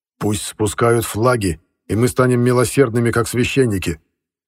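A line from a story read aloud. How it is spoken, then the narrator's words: Angry, curt. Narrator (Russian): Зло бросил Колчак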